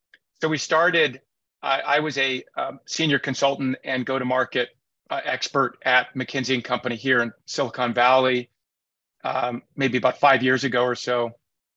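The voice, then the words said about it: Slightly hoarse voice. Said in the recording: “my voice being a little bit hoarse. I just got over that cold”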